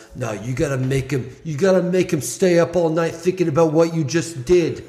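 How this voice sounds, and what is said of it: Put-on accent imitating a coach. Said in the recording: “A good accent. ... I'm glad you don't talk like that normally.”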